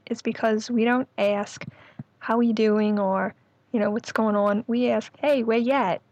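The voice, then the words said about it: New Orleans Yat accent, R-dropping. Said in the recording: “Yat accent... the Yat dialect, this is the dialect that sounds like New York... that R-lessness, that dropping the R... that aw sound, that bought sound”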